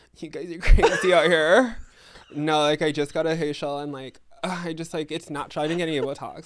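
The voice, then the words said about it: LA-style impersonation voice. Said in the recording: “This is my LA impersonation.”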